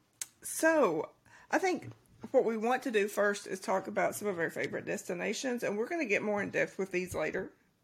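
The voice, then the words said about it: Kentucky accent. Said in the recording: “I'm from Kentucky. Once again, ignore the accent”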